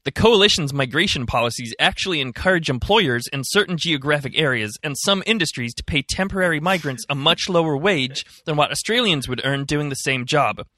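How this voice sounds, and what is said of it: Weak put-on American accent. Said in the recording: “Maybe I'll try and do an American accent. It's not very good”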